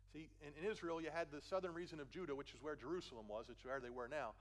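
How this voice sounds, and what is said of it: Philadelphia accent. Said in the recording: “I know I have a Philly accent. I grew up in Philly. I can't shake it.”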